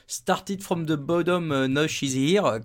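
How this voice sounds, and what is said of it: Heavy French accent speaking English. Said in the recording (French): “comme disent euh, les Anglais avec mon accent incroyable”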